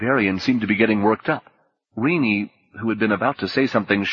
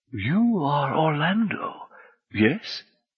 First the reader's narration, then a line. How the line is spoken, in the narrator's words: Sellers sounded gently pleased